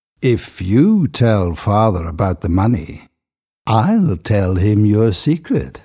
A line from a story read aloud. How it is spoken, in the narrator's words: said Dunstan with an evil laugh